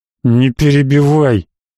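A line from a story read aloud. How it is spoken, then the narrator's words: Through gritted teeth. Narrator (Russian): процедил Гант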